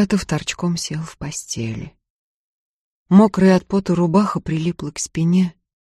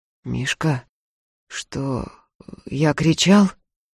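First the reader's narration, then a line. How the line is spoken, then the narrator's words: Hoarse question. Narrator (Russian): хрипло спросил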